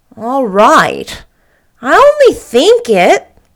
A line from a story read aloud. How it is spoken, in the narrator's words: said Davy cheerfully